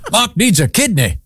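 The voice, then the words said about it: Put-on unidentified accent. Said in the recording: “I'm not sure what accent that is... I'm not good at accents”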